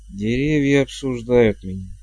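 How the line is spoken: Mutter. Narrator (Russian): пробормотал герцог Флем

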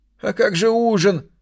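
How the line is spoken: Whining. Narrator (Russian): заскулил секретарь

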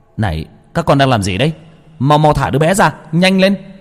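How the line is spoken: Deep-breath shout. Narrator (Vietnamese): Tôi lấy hơi mà hét lên

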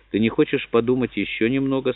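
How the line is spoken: Strained forced calm. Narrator (Russian): спросила она, прилагая поистине нечеловеческие усилия, чтобы ее голос звучал спокойно

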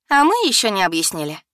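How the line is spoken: Snide. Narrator (Russian): ехидно проговорила Инна

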